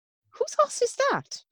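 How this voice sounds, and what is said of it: Put-on Irish accent. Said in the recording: “That was a really good accent. ... That was a good accent. ... That was almost Irish, wasn't it?”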